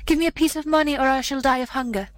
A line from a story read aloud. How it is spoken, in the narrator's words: the leper cried